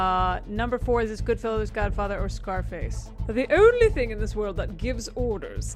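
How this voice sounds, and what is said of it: Usual voice. Nothing is said of it.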